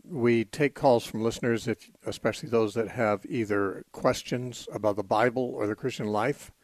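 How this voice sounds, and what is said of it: Slightly strained, worn voice. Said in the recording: “My voice is a little bit on the edge ... I've been busy using it a lot.”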